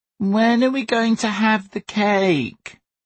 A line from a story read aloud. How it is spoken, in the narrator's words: Sonny whined